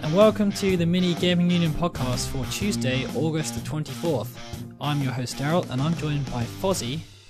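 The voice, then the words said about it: Strained, worn-out voice. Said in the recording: “apologize for my voice... lots of talking, and it didn't go well with my throat.”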